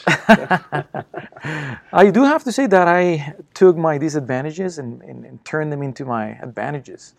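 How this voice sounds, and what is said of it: Thick foreign accent. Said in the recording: “I have a huge thick accent right now”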